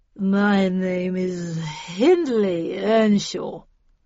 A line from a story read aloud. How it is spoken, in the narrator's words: slurred the drunk